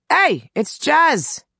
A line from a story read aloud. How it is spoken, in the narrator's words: Billy called out